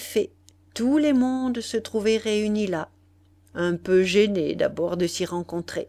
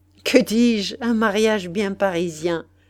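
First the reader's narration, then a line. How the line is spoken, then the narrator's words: Sneering. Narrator (French): répéta Massot en ricanant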